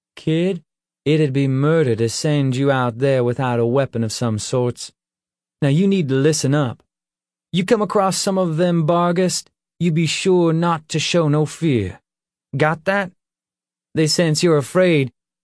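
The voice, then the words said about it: Slight southern drawl. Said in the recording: “he asked in a slight southern drawl.”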